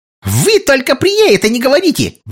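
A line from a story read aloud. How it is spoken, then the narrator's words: Shrill squeal. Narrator (Russian): взвизгнула она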